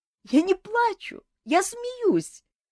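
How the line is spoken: Sobbing. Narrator (Russian): всхлипнула Саэта

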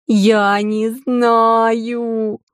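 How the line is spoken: Wailing drawl into sobs. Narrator (Russian): протянула провыла Вики и вновь разрыдалась

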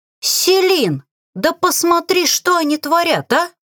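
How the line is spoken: Indignant shout. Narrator (Russian): Возмущенно прокричала Лилит

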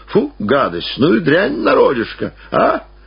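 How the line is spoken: Laughing. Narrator (Russian): засмеялся

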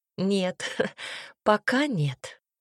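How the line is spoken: Laughing. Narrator (Russian): Полина рассмеялась

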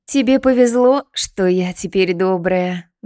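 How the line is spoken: Blissful breathy. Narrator (Russian): блаженно выдохнула она

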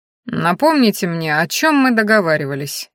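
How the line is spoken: Dry request. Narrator (Russian): сухо попросил Хорен

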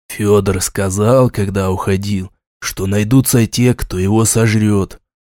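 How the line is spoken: Thoughtful mutter. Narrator (Russian): задумавшись, пробормотал Шуйский

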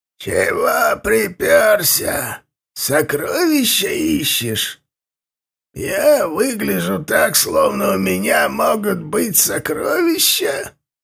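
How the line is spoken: Creaky, grating voice. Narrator (Russian): он проскрипел

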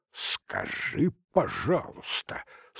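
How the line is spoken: Through gritted teeth. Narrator (Russian): сквозь зубы процедил Некрасов, почтительно и в то же время немного иронически

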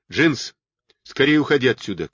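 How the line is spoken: Shout. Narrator (Russian): крикнул Кэт

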